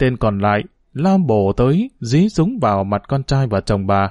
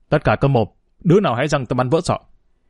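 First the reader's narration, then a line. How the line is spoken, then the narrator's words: Shout. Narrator (Vietnamese): Một thằng quát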